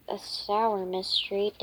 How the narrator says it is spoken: Dash mumbled

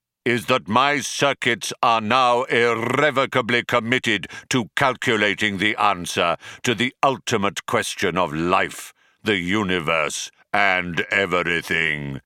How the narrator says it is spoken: bellowed the computer

